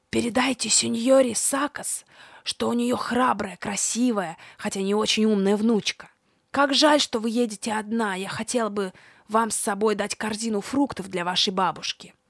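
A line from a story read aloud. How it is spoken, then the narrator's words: Old man's loud whisper. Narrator (Russian): старик сказал мне громким шепотом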